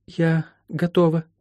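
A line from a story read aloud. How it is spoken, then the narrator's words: Forced, strained. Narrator (Russian): выдавила из себя Молли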